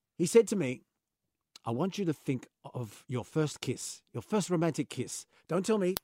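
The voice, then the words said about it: Poorly done put-on accent. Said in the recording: “Why am I doing the accent? I'm not even doing it well. ... It's terrible.”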